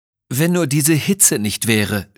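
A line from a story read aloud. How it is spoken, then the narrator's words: Groaning. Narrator (German): stöhnte Miss Pippin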